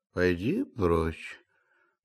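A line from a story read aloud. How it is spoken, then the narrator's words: Sleepy grumble. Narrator (Russian): проворчал Илья Ильич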